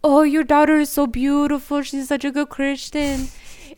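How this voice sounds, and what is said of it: Poorly imitated thick Romanian accent. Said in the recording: “accent. such a bad accent. ... That was so bad. ... he does not sound like that. It's so thick.”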